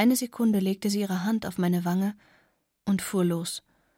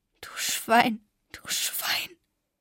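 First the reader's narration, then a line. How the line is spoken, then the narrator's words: Sobbing. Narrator (German): Ich fing an zu schluchzen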